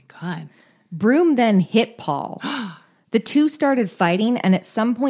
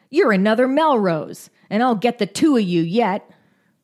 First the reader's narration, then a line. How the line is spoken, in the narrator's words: Broom suddenly snapped into a rage and he said